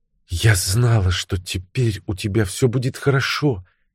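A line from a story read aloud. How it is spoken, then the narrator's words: Barely audible. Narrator (Russian): еле слышно проговорила она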